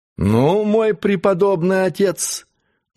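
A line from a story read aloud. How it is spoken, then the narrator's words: Mocking. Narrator (Russian): начал он насмешливым тоном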